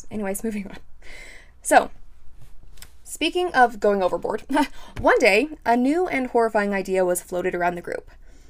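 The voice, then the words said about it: Hoarse, partly lost voice. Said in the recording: “I've lost my voice a little bit. So if that's why I sound weird”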